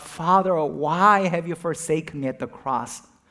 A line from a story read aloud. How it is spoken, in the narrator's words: he cried out